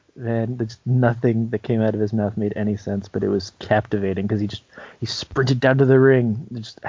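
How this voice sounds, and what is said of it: Usual voice. Nothing is said of it.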